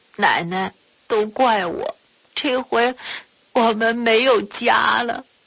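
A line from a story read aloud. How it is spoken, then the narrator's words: Tearful. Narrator (Chinese): 喜儿哭着对马奶奶说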